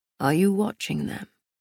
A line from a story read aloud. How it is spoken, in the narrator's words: Castile asked, his voice full of smoke